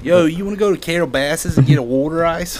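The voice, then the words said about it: Put-on Philadelphia accent. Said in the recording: “I do like the Philly accent.”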